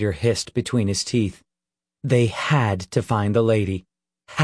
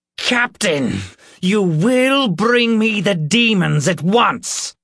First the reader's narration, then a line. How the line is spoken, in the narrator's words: the Reverend shouted in a voice that expected only obedience